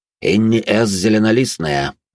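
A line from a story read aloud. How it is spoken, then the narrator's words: Loud, formal. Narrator (Russian): громко произнес на едином наречии Винсент Кассиди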